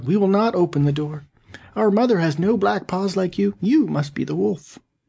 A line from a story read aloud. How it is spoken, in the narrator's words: the kids, seeing this, cried out